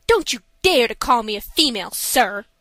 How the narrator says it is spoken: said the lady furiously

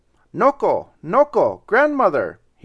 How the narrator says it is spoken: he cried

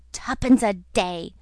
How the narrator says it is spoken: muttered Moody with a curse

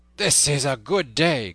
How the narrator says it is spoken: cried he

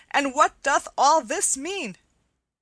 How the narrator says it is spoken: cried Will Stutely

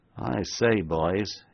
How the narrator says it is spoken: ejaculated the ex-convict with an uneasy laugh, half comic, half bewildered

